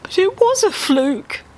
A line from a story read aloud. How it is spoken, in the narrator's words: Dave wailed